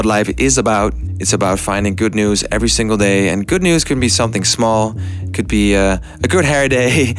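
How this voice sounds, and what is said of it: Excited, energetic voice. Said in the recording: “you can hear it in my voice, I'm still very excited”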